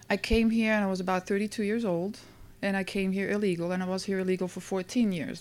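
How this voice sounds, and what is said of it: Dutch-accented English. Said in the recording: “I grew up in the Netherlands, so that's the accent that you hear.”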